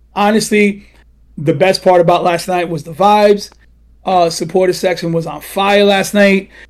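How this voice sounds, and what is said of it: Hoarse, mostly lost voice. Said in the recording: “I got a bit of cowboying in last night. That's why my voice is all gone.”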